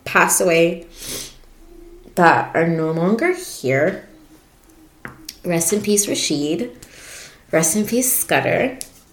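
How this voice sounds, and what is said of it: Emotional, choked-up voice. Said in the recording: “Oh my God, I'm getting emotional.”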